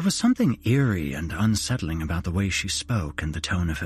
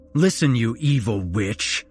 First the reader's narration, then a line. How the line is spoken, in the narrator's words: spat out angrily